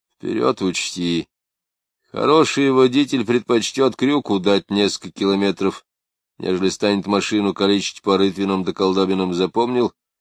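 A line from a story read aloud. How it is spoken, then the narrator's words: Drowsy even advice. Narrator (Russian): Перепчук сквозь дрему ровным голосом посоветовал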